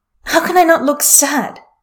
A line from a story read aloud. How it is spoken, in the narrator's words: Wunker Singh snaps